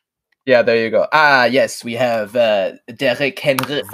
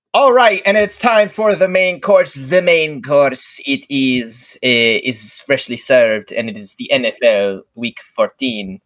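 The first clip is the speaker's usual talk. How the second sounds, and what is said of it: Put-on French accent. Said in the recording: “The traditional French accent”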